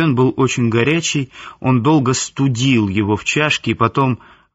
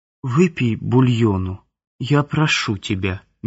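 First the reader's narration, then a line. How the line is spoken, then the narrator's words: Soft. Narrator (Russian): мягко сказала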